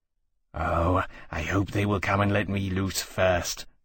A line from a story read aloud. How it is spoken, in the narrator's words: Temeraire murmured, fretful at the prospect of a rescue in which he had no say